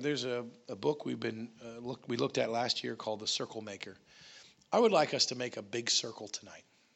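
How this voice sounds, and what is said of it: Strained, nearly lost voice. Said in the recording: “my voice is just about gone”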